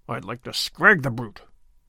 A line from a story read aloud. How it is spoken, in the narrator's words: muttered Sir Andrew savagely